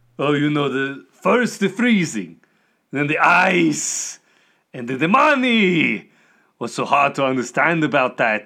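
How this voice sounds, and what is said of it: Villain character voice, thick accent. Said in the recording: “Is it my accent? ... Your accent, despite the fact it's really thick”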